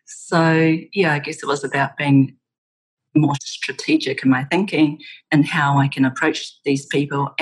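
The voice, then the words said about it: New Zealand accent. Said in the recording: “my accent ... where are you from? ... New Zealand”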